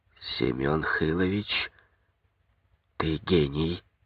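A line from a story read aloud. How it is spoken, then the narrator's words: Whisper in ear. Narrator (Russian): Коньков шепнул на ухо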